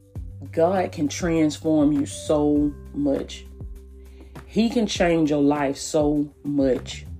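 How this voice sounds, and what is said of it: Soft, near-whispered speech. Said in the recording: “kind of sound like I'm whispering a little bit ... So if I sound like I'm whispering”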